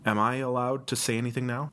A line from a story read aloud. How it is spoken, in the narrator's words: I faltered